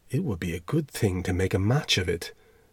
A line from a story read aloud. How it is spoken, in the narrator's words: the headmaster's wife said to me softly